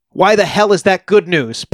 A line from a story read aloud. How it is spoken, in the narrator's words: Paez shouted angrily at Nikolic